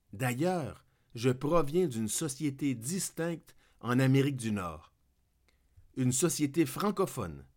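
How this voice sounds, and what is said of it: Québécois French accent. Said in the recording (French): “Une société qui a un accent. Très aigu d'ailleurs. Le Québec. Je suis fier d'avoir un accent.”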